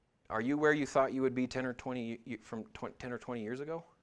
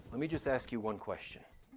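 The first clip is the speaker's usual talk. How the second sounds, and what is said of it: Imitated Columbo detective voice. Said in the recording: “my best Columbo impression”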